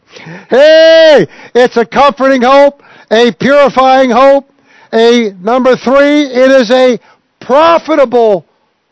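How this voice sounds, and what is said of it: Loud screaming preacher delivery. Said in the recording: “My voice, I'm screaming ... I got to yell my head off here”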